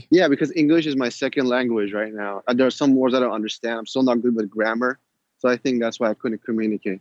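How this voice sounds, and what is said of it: Slight non-native English accent. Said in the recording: “You have a slight accent.”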